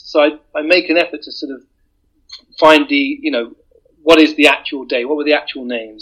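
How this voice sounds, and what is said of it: British accent. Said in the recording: “there's something about a British voice ... a British voice telling a story”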